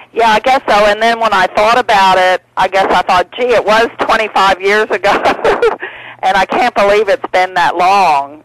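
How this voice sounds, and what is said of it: Tennessee twang with Australian tinge. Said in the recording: “that Tennessee accent, and it's got a little Australian tinge ... I try to keep a bit of my twang ... pick up some different words and phrases and intonations in my accent”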